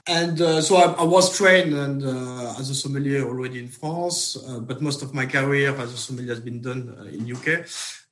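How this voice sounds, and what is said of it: French accent. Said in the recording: “I'm from France, you can tell by my accent”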